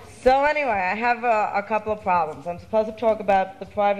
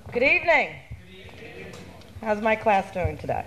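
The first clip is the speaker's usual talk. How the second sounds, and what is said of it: Addressing the room in a teacher voice. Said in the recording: “teacher voice”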